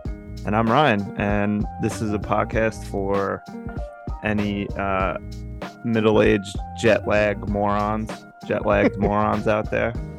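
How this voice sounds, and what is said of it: Sick, congested voice. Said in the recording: “I'm kind of sick, actually. I don't know if you can hear it in my voice, but throat's not feeling good. I'm congested”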